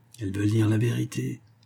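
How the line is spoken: Fortune-teller murmuring. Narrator (French): murmure le diseur de bonne aventure

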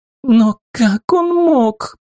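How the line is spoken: Sobbing girl. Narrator (Russian): Девушка уже рыдала вовсю

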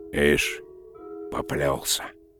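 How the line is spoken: Muttering. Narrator (Russian): пробормотал он

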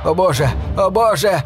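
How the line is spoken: Shouting native. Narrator (Russian): кричал один из аборигенов

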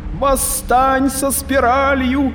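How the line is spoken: Shouting down stairwell. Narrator (Russian): прокричала Арикин в лестничный пролет вышки

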